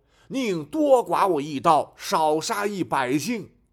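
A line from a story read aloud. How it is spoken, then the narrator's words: Loud. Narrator (Chinese): 刘巡抚大声说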